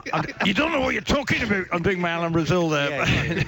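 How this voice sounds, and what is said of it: Bad imitation of another person's voice. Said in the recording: “worst Alan Brazil impression ever... It's so bad.”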